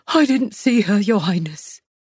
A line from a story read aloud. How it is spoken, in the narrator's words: the man cried